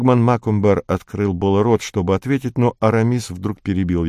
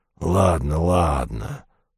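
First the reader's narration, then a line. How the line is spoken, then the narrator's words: Grumbling. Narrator (Russian): проворчал двуглавый Юл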